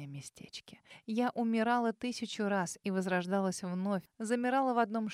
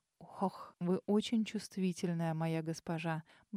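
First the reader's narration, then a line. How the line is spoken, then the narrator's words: Velvety purr. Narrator (Russian): Бархатисто промурлыкал Омбре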